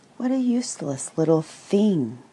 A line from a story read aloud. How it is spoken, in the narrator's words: exclaimed the tiger